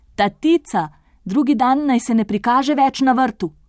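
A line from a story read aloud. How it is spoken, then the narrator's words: Shouting. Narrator (Slovenian): so zavpili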